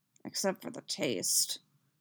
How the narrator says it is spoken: Cody mutters to himself

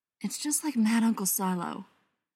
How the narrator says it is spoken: he said under his breath

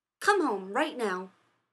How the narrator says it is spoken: Rodney snapped

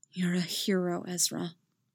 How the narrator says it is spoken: he said quietly into Ezra's ear

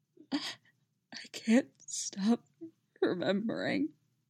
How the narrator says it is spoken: he croaked, as the tears began to trail down his face

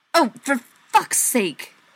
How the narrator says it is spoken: said tightly

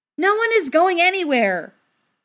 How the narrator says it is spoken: the girl yelled

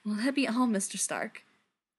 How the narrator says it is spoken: she panted one night, wicked

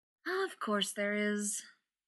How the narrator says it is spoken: Elizabeth said, sighing

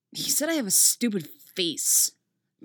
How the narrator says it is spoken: Tim mutters

